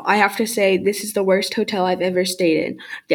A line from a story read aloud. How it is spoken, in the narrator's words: Dad said